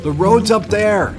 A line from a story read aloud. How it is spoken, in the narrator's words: I shouted